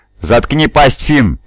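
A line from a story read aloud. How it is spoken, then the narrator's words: Barking. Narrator (Russian): рявкнул Дезойса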